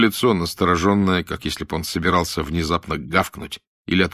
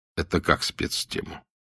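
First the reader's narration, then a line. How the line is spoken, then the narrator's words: Sighing. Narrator (Russian): Она вздохнула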